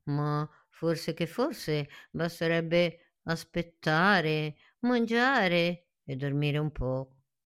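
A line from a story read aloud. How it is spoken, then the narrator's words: Sigh. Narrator (Italian): Cirillo sospirò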